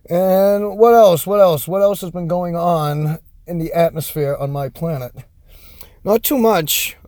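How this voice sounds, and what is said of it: Boston accent. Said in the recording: “I'm from Massachusetts, so my Boston accent does shine through sometimes.”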